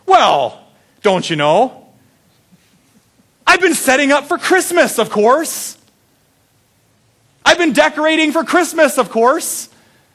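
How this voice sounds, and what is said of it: Minnesotan accent, elderly grandmother voice. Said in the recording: “can't do my grandma voice very well ... in her, you know, Minnesotan accent”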